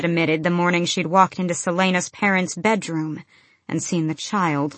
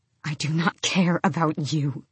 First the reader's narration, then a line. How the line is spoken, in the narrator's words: she hissed to Emrys and Malachi and Luca